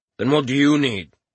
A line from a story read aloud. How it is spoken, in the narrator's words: asked gruffly